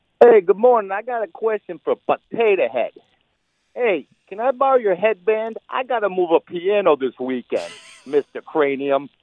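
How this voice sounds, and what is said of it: Speaking with a dialect accent. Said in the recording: “the accent that goes with it. ... some sort of dialect to it.”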